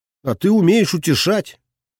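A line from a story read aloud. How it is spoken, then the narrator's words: Smirking. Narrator (Russian): хмыкнул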